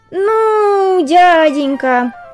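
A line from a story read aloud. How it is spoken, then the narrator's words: Drawling mosquito voice. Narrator (Russian): протянул комар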